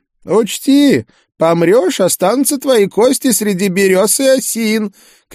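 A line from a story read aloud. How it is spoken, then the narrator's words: Shouting after someone. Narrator (Russian): кричал он мне уже в спину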